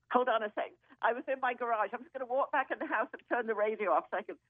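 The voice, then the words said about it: English accent. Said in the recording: “that beautiful accent. Which part of England are you from?”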